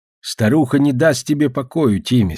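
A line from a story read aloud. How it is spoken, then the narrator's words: Plain. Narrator (Russian): сказал рыба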